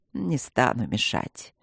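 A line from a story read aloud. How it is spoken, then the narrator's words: Tender sly whisper. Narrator (Russian): ласково прошептал коварный похититель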